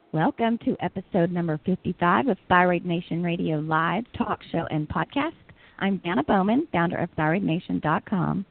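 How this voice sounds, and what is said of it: Scratchy voice. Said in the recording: “My voice is a little scratchy.”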